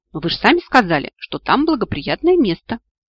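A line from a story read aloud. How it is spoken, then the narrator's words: Laughing inwardly. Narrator (Russian): в душе рассмеялся Мартифор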